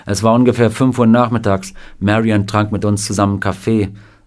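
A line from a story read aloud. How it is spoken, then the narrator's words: Plain. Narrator (German): sagte Sam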